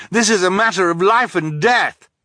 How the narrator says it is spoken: Klaus cried

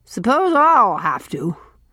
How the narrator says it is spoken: grunted Mrs

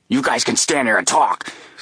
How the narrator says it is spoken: snapped Peters

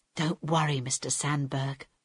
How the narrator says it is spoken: Harold whispered

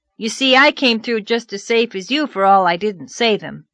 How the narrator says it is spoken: he added triumphantly

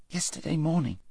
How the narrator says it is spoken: said Shasta weakly

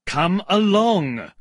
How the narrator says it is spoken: cried an angry voice

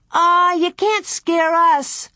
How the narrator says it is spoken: Lena called out

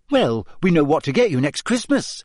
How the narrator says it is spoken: said Hermione brightly

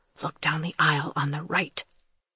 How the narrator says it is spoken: Thomas whispered

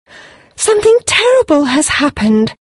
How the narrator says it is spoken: she exclaimed

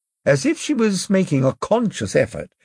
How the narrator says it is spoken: she said, brightly

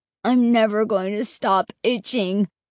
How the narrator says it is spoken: Mark whined

